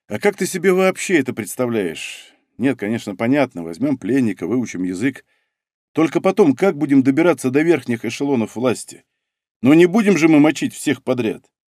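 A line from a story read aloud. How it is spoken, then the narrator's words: Thoughtful question. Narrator (Russian): задумчиво спросил Цинк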